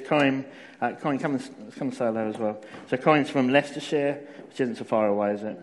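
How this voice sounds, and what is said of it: Essex southern English accent. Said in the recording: “I'm a southerner... I'm originally actually from Essex... it doesn't sound like a Northamptonshire accent... I'm from Essex”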